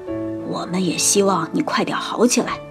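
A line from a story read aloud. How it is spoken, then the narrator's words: Hoarse voice. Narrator (Chinese): 小熊妹妹声音沙哑地说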